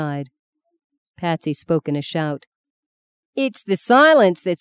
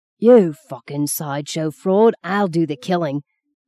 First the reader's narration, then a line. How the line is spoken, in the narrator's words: Call croaked hoarsely